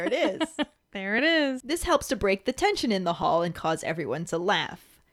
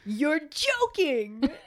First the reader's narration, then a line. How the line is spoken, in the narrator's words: Fred loudly exclaims